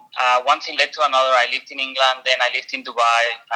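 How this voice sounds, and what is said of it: Slight Spanish accent. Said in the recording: “I have a little bit of an accent. So I'm Spanish.”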